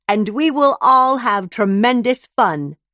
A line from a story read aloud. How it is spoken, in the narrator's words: Grinning, Shia shouts